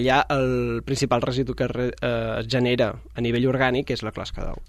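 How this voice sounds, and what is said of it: Mallorcan Catalan accent. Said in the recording (Catalan): “jo sóc de Mallorca. ... es nota, eh, amb aquest accent ... fantàstic.”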